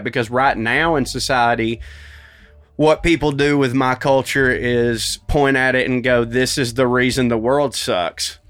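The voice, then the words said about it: Accent with a twang. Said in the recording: “this accent ... twang”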